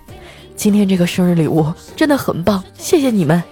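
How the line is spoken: Choked with emotion. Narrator (Chinese): 他就哽咽道

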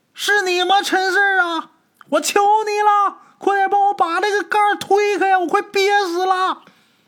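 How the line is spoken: Shouting. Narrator (Chinese): 王有山又喊

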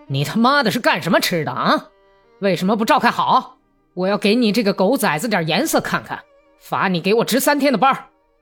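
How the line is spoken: Shouted. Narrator (Chinese): 喊道

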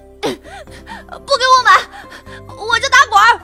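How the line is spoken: Child's tantrum yelling. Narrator (Chinese): 原地坐着打滚儿，双脚乱蹬，边打滚边喊

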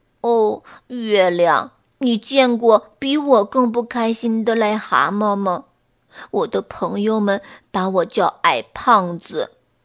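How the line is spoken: Choked, sobbing toad. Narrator (Chinese): 癞蛤蟆……哽咽地说

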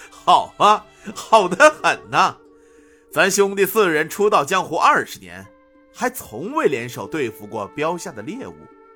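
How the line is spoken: Loud laughter. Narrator (Chinese): 天王星哈哈大笑道

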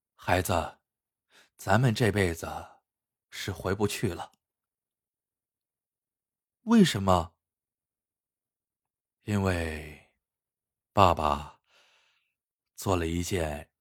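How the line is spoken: Long sigh. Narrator (Chinese): 薛全长叹一声，说道

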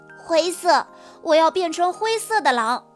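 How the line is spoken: Shouting. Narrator (Chinese): 哈瓦尔叫道

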